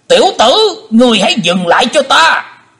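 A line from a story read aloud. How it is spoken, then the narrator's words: Panicked loud shout. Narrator (Vietnamese): Hải Âu Quái Khách vô cùng hốt hoảng, quát lớn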